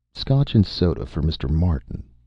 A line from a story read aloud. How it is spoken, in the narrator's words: Watt said calmly